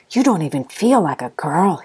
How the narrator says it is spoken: he whispered

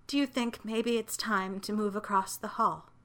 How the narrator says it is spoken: Olive asked softly

